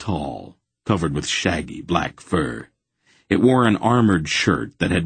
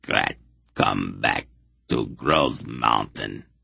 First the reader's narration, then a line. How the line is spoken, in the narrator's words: the monster growled